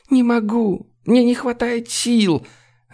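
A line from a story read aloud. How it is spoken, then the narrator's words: Choking sobs. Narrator (Russian): Она задохнулась от рыданий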